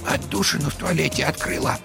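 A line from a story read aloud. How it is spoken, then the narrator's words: Quiet. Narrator (Russian): тихо сообщила она Вовке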